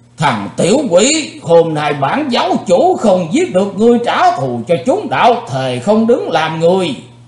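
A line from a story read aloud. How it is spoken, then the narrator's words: Loud roar. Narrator (Vietnamese): âm ma giáo chủ đã gầm to lên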